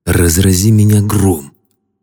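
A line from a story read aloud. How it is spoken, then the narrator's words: Excited hoarse whisper in ear. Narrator (Russian): Взволнованно прохрипел мне в ухо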